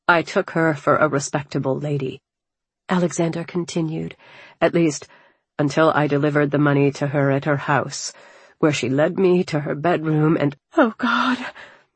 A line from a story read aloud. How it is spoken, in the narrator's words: I murmured, a wave of nausea washing over me